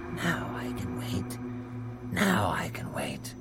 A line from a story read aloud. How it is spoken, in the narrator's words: he grew quiet and kept murmuring to himself